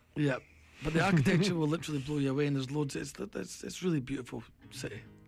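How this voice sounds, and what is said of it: Scottish accent. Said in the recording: “It's the Scottish accent ... It's a Scottish accent.”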